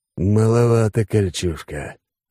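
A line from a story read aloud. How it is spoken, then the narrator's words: Hoarse wheeze. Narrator (Russian): прохрипел Алекс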